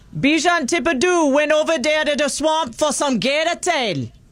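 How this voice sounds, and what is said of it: Put-on Cajun accent, Jamaican-sounding. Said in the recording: “the Cajun accent... it almost sounds Jamaican”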